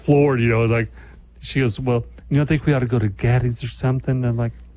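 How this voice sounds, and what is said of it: Stereotyped gay-sounding voice. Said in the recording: “Why does this person sound gay? ... you're doing the gay voice.”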